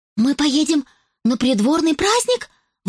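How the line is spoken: Excited exclamation. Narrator (Russian): воскликнула Изабо, вдруг загоревшись

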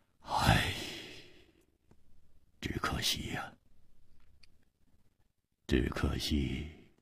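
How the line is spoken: Sudden sigh. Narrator (Chinese): 他忽然叹了一口气说

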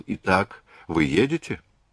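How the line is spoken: Quiet question. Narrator (Russian): тихо спросил

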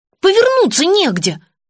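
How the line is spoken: Snorting. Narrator (Russian): фыркнула Настя

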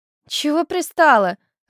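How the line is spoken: Irritated reply. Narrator (Russian): раздраженно ответила соседка

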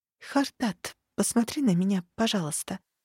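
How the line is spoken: Fearful near-whisper. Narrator (Russian): почти шепотом попросила я, безумно боясь спровоцировать приступ ярости

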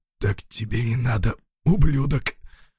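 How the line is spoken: Hoarse, teeth chattering. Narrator (Russian): Стуча зубами, прохрипел

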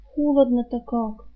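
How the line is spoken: Sleepy mutter. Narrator (Russian): пробормотала она, не открывая глаз

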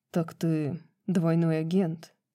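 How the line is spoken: Quiet question. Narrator (Russian): тихо спросил Хант

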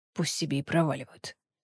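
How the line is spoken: Grumbling male voice. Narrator (Russian): пробурчал Фенрис

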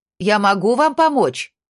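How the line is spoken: Shouted louder. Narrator (Russian): крикнула громче

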